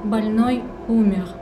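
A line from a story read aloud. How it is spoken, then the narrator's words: Mournful. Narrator (Russian): скорбно произнесла она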